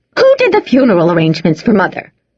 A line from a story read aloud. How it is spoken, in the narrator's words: snapped Bess